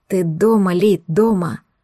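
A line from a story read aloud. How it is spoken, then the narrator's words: Hoarse, breaking voice. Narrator (Russian): Его голос ломался от хрипоты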